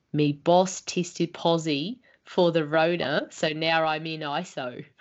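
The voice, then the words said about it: Put-on Australian accent. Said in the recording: “How was my accent? ... That was really good.”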